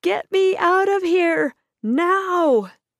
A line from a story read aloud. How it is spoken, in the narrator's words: cried out